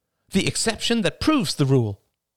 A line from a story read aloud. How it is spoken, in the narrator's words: said her mother triumphantly